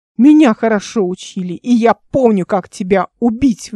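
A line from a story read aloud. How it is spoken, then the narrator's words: Priest shouting. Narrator (Russian): выкрикнул жрец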